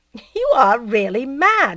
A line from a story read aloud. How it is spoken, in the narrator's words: he said, laughing